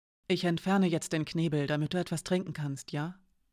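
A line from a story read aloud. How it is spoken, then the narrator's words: Quiet speech. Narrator (German): sagte sie leise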